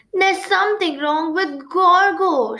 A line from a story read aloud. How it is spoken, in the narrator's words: Shivereen cried